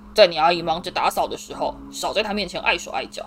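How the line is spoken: Harsh roar. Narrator (Chinese): 他对哈利厉声吼道

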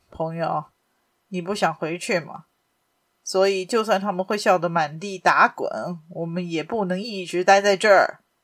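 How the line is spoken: Cold stern reply. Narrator (Chinese): 福尔摩斯板着脸，冷冷的回答

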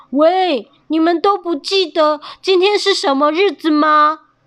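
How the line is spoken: Angry shout. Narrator (Chinese): 他生气地对着蜂巢大叫

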